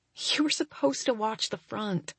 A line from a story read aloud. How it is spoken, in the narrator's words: I mumble